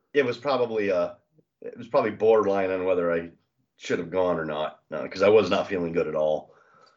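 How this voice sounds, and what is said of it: Stuffed-up, congested voice. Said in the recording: “You can hear in my voice that I'm all stuffed up pretty much.”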